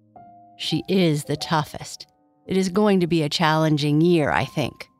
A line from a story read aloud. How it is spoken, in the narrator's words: Kai Kai said with a sigh